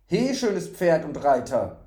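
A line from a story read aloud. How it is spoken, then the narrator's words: Sudden call. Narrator (German): rief plötzlich eine Stimme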